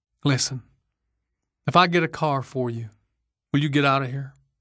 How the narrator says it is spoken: she said

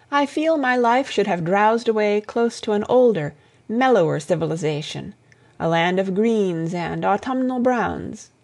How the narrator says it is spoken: she sighed

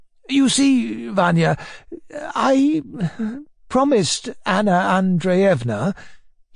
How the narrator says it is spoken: he began, faltering and hesitating a little

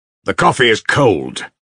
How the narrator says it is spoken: he cried harshly

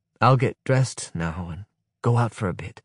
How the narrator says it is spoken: whisper, so as not to disturb her

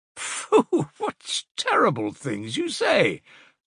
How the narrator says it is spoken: said Semyetov, laughing

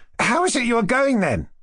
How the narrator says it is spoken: cried Kolya

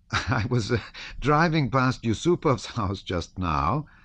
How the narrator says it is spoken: said Berg with a laugh

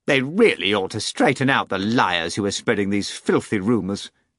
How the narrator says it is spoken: Madame Petrikov boomed indignantly in contralto, somewhat louder than Boba would have liked

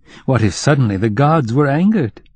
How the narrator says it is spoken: Kovrin said jokingly

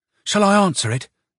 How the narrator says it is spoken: Anyuta inquired anxiously

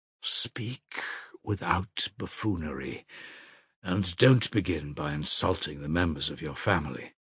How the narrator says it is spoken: answered the elder in a faint, exhausted voice

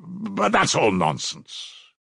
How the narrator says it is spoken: he added irritably, vexed at being carried away

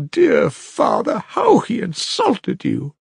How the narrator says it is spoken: I sobbed too

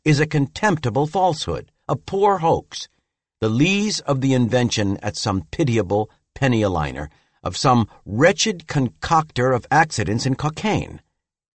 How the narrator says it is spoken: I exclaimed

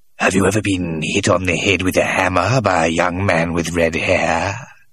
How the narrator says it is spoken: Scogan would suddenly look up and ask, in a hoarse whisper

